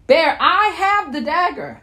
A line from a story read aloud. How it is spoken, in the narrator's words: I shouted